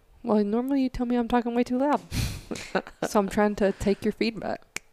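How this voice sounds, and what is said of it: Whispering. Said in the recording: “Stop whispering. ... I think you're just whispering”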